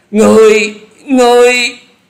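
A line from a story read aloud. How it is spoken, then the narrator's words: Terrified group cry. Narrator (Vietnamese): bốn gã cuồng ma đều không hẹn mà la lên kinh hãi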